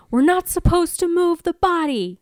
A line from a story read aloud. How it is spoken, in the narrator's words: she yells